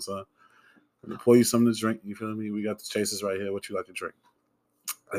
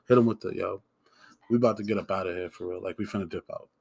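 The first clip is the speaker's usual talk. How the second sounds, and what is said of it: Put-on smooth talking-to-women voice. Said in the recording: “This is the accent I use when I talk to bitches. ... This is how I talk to them. This is how I sound.”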